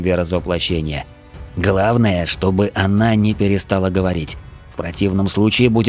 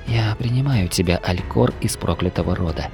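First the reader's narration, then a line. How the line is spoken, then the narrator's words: Whispered. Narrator (Russian): прошептала смерть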